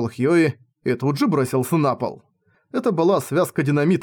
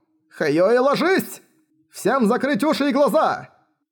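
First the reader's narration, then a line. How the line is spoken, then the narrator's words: Sudden shout. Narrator (Russian): Внезапно закричал Магнусон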